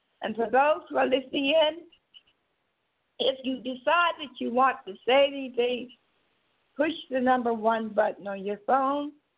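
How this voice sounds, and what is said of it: Hoarse, congested voice. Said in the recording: “as I am getting hoarse, today I see my sinus bothering me. I'm not able to it's as though I'm trying to get laryngitis.”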